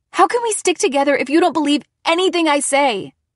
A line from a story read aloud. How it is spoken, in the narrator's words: I shouted